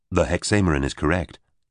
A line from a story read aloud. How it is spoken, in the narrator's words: Royan said